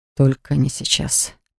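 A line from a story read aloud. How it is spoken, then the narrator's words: Mumbling. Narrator (Russian): пробормотал Дан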